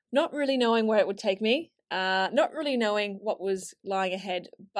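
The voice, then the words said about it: Australian accent. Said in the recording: “my accent isn't actually from here originally, and I moved from Australia to London”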